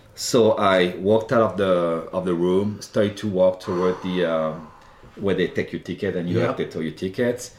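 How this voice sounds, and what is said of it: Slight French accent. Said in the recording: “my French accent, which is charming French accent, slightly French accent.”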